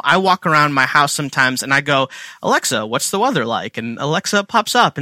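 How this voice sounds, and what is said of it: Indian English accent. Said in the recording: “my accent. I'm Indian”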